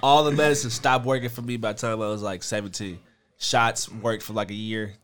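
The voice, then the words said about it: Congested, stuffy voice. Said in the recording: “my wild and crazy allergies ... I sound like a fat kid”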